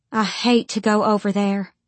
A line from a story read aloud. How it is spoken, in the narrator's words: Mama said